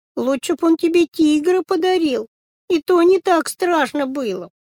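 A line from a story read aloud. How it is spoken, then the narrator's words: Frightened girl's crying voice. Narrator (Russian): девочка, которая боялась оттуда выйти, сказала плачущим голосом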